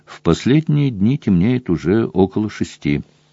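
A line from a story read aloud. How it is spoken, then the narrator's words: Plain. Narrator (Russian): ответил Гарри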